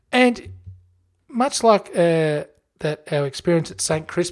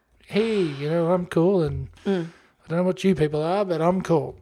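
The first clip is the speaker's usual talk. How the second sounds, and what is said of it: Put-on American accent. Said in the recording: “American accent.”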